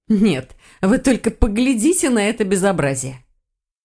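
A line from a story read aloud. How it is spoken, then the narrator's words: Snorting. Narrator (Russian): Лиса хмыкнула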